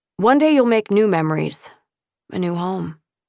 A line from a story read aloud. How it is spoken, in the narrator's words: he said sadly, reassuringly